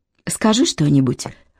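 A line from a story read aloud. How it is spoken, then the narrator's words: Whispered request. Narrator (Russian): шепотом попросила Нуну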